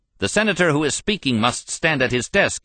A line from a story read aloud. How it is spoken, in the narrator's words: he shouted